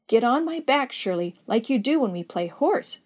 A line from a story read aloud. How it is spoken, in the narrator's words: she exclaimed